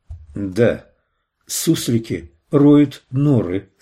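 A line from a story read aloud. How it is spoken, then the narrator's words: Plain. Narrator (Russian): сказала она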